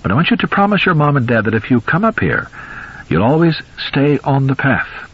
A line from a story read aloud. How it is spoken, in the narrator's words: Judd said kindly